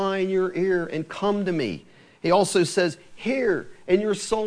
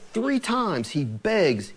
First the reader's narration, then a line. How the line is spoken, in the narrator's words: he pleads